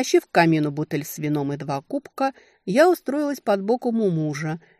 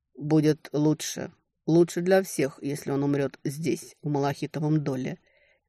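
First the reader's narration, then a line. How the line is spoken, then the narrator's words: Quiet. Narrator (Russian): тихо закончил Тальден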